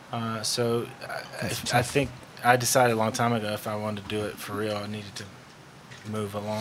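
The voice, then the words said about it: Georgia Southern US accent. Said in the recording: “I knew he was from Georgia. ... I could tell from the accent”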